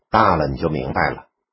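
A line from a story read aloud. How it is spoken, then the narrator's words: Soft sigh. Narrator (Chinese): 妈轻叹了一声说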